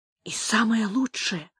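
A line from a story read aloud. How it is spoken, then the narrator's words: Muttering. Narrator (Russian): пробормотал Тито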